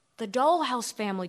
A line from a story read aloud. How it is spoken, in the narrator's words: Carmen whispered